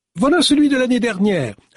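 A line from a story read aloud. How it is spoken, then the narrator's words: Cheerful announcement. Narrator (French): annonça-t-elle d'un ton guilleret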